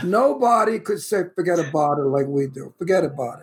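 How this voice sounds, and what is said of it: Brooklyn New York accent. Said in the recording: “my Brooklyn accent ... they love the New York City accent ... Brooklyn accent”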